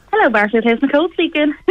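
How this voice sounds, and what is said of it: Polite receptionist phone voice. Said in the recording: “how you answered the phone voice”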